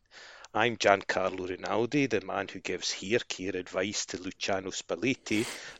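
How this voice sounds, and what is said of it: Scottish accent. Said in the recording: “a light-hearted look at Serie A with a Scottish accent.”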